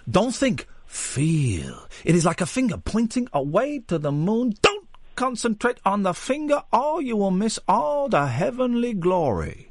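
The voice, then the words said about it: Bruce Lee impression. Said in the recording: “Chinese accents coming through ... do your best Bruce Lee impression”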